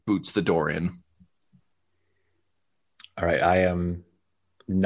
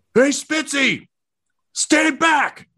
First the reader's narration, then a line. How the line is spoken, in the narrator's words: He just kind of cracks his neck back and forth just yells